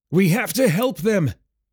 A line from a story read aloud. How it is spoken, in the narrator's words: Garin shouted